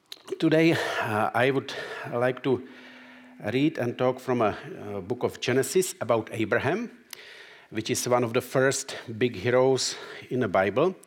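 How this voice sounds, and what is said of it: Czech accent. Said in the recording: “I am Czech, so I was born in Czech ... so you can tell by my accent.”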